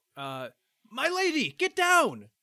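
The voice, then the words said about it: Frantic shouted warning. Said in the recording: “I'm going to shout ... In his frantic voice”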